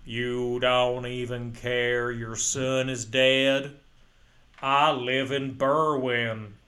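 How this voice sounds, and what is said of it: Put-on Chicago accent drifting Minnesotan. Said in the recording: “He's from Chicago. He doesn't have that accent. ... That turned into two Minnesota.”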